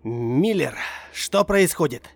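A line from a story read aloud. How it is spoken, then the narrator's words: Shouted. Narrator (Russian): выкрикнул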